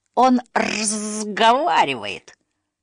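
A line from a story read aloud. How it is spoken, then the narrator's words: Hiss of huge fierce beast. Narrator (Russian): прошипел самый громадный, свирепый на вид саблезуб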